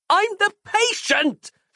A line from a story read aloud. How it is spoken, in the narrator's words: she yelled